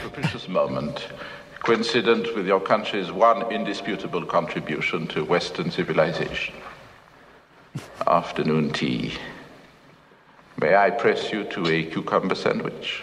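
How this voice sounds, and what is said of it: Labored, dry put-on French accent. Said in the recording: “What's his accent supposed to be? ... French, I guess. ... But it's so labored. Yes. Dry.”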